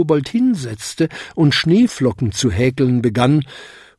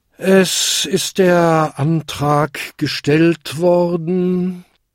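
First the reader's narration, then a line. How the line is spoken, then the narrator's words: Tired chairman. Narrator (German): sagte der müde Versammlungsleiter schließlich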